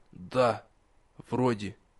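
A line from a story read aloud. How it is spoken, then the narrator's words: Hoarse croak. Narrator (Russian): Алис хрипло каркнул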